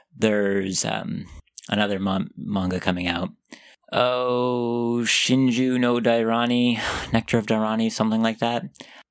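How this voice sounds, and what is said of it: American accent. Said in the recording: “said that with such an American accent ... I'm American”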